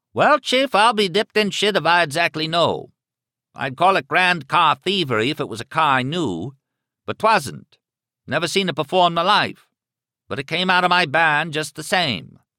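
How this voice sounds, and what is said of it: Deep satiric Maine accent. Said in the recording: “that deep and somehow satiric Maine accent that turned a simple word like barn into something that sounded almost like a bray of laughter”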